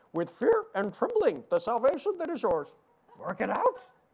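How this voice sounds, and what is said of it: Deliberately bad Yoda character voice. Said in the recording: “do a really horrible Yoda imitation ... Terrible, right?”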